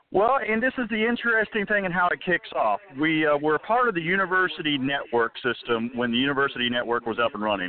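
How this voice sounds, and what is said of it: Polished radio announcer-style voice. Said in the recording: “You got a nice radio voice.”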